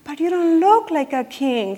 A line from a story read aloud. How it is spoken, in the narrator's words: gasped